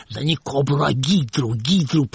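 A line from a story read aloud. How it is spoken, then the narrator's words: Whisper. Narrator (Russian): прошептал Хуриев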